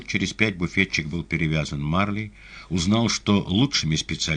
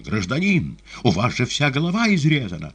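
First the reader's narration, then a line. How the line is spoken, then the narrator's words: Exclaiming woman. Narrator (Russian): женщина за прилавком воскликнула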